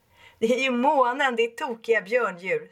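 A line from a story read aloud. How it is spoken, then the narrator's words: Laughing. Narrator (Swedish): skrattar Obi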